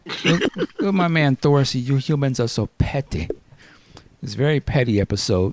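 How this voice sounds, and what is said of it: Captain Marvel-ish put-on accent. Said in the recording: “What accent was that? ... Badass Guardian? ... That was Captain Marvel-ish.”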